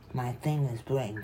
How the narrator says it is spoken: I said

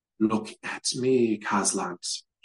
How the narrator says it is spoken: she sighed

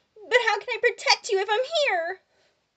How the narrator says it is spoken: Brandon laughed

